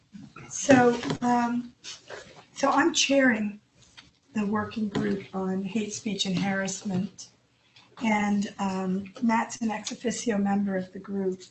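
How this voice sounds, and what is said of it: Hoarse voice. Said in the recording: “apologize for the voice. I've been hoarse for the last 5 weeks”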